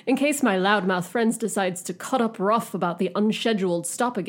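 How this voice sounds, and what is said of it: Put-on British accent. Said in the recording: “I should be doing this in a British accent. ... Your best, worst British accent.”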